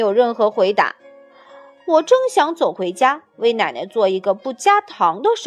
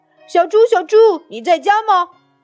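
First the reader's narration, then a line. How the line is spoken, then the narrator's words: Calling out at door. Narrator (Chinese): 我在门口喊着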